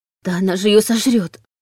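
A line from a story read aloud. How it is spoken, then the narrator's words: Breathless exhale. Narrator (Russian): выдохнула Саша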